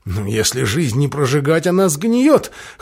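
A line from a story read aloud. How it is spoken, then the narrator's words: Snort. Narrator (Russian): хмыкнул Мерса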